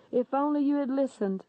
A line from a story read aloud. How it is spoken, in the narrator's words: said Jesus